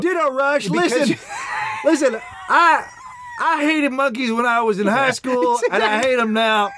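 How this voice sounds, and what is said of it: Put-on Southern US accent. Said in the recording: “why we're doing a Southern accent.”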